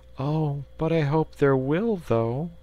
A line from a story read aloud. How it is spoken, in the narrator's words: replied the little fellow wistfully